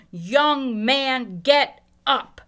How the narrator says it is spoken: said to the dead man in a loud, commanding voice

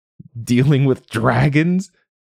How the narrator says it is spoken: He laughed too loud, for show

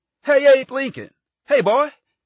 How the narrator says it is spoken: He called out

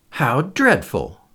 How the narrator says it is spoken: exclaimed Lady Agatha

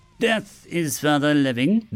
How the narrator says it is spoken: the unit said in an almost macabre, amused tone that sounded more like a boy than a machine

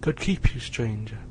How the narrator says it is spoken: I exclaimed

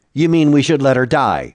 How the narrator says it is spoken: said curtly

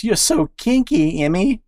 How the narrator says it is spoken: she moaned

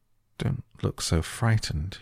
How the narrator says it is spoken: he said, in a worried voice

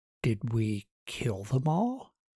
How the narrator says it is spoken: Martin asked

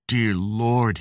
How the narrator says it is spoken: he groaned

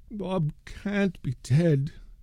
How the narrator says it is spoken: Meg Gallagher moaned

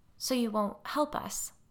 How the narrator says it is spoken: Molly said, her voice catching

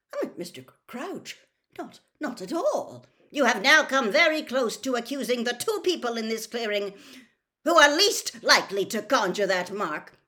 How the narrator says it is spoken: barked Mr

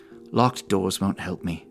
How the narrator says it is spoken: she muttered, mostly to herself

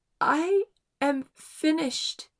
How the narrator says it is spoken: gasped

